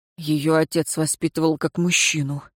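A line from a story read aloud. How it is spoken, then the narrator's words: Absent-minded mutter. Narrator (Russian): машинально буркнул Шамис, раздумывая о том, что услышал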